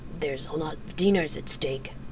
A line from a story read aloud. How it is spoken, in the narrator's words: she muttered